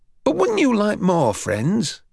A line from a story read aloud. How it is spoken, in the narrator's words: Harry sighed